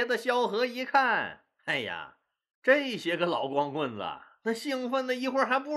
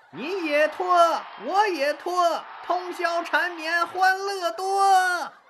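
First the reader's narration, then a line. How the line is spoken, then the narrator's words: Sudden shout from crowd. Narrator (Chinese): 不知谁又喊了一嗓子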